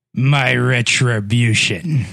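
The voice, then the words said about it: Scary incel character voice. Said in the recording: “your impression of an incel ... That's scary.”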